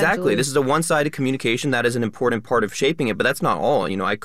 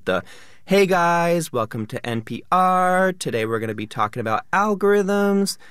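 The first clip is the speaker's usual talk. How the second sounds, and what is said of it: Lifestyle influencer up-talk voice. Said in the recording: “influencer accents ... the most famous sort of lifestyle influencer accent ... It has that up talk. It has the rising tone.”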